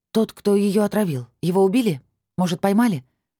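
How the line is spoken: Hoarse, frightened question. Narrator (Russian): хрипло уточнила я, обратив испуганный взгляд

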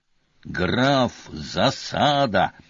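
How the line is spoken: Growled. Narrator (Russian): зарычал Певер

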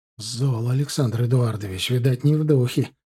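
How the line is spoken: Quiet. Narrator (Russian): негромко проговорил Копорский

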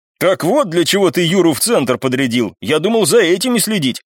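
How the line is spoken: Chuckling. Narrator (Russian): хохотнул

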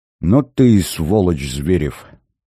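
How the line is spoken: Said through clenched teeth. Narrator (Russian): процедил Корнев

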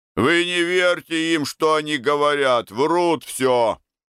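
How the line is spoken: Deep shout. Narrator (Russian): кто-то крикнул басом

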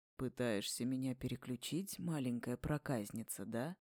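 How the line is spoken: Husky whisper. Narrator (Russian): Его голос упал до хрипловатого шепота

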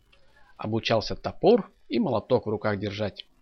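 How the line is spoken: Plain. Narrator (Russian): ответил Федор

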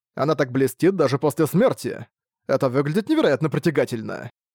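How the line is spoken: Laughing. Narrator (Russian): Засмеялся он

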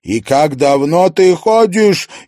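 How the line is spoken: Hysterical shout. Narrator (Russian): истерично крикнула она

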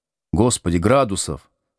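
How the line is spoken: Calm but heartfelt. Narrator (Russian): спокойно, но с сердцем говорит Борман

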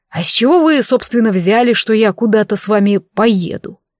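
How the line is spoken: Surprised scoffing. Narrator (Russian): Я хмыкнула удивленно со словами

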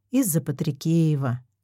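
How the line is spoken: Sigh. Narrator (Russian): вздохнула Марина

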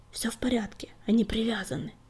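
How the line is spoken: Whisper. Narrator (Russian): шепнул он

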